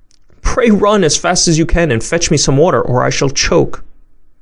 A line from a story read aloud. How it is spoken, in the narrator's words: she was in a great fright and cried out